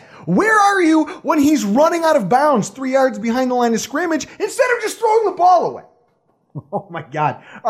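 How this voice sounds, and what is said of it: Yelling, fired-up delivery. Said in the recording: “sorry for yelling. I'm getting all fired up over here.”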